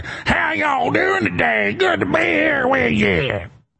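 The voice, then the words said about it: Fake southern accent. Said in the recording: “fake voice ... It's not even a Kentucky accent ... It's like some weird southern accent”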